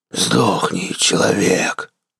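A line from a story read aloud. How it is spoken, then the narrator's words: Growling. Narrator (Russian): прорычал Минотавр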